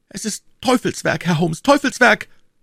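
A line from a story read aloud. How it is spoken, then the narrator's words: Screamed. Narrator (German): schrie Mortimer Tregennis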